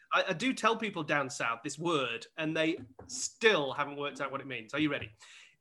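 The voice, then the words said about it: Sheffield English accent. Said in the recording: “I'm from Sheffield, all right? ... Love the accent. ... Oh, I actually am from Sheffield.”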